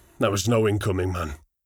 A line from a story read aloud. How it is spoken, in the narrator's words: Braga said with a grunt